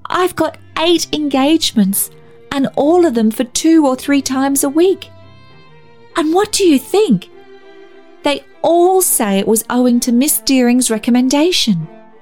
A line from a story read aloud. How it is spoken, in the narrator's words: she cried joyously